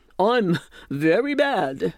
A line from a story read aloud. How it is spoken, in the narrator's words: growled the bear